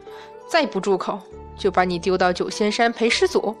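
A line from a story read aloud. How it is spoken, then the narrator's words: Angry, stern. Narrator (Chinese): 韩华气恼地厉声道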